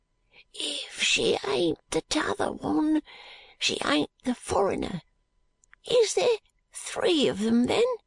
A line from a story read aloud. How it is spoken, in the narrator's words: he hoarsely whispered to Charley